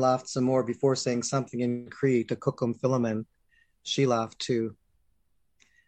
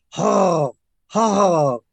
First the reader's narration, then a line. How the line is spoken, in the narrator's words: croak in the forest